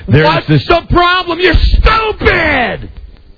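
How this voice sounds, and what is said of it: Screaming angrily. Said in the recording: “I was just screaming. ... I'm screaming too much.”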